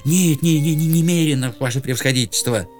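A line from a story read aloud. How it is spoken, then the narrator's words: Reply with guilty sigh. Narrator (Russian): ответил Иван Евсеич и виновато вздохнул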